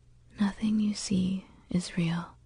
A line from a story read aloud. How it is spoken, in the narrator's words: she said quietly